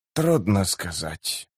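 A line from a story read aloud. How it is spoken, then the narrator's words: Muttered. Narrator (Russian): пробормотал Котильон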